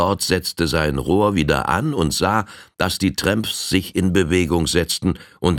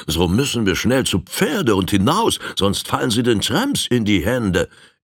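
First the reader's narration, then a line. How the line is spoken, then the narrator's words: Called out. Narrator (German): Der Lord ... rief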